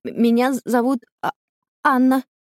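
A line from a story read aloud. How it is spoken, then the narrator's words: Stammering reply. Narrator (Russian): заикаясь, отвечает Анна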